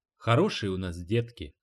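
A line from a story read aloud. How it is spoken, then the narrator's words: Affectionate. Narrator (Russian): ласково сказал Эрни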